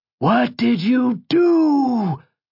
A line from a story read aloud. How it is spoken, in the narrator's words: roared the god